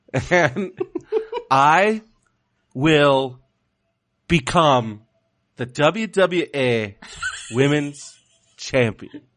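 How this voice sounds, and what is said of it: Slow-talking imitation of another person. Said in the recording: “You do the best Sasha impression ... You just talk real slow.”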